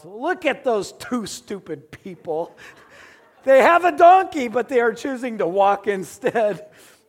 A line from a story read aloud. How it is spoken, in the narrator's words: the people yelled out